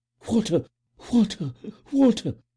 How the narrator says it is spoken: she panted

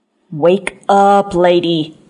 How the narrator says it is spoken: creature moaned

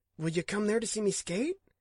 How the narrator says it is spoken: He blurted

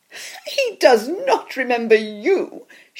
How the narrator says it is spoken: she laughed

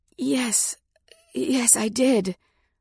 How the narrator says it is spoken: I gasped

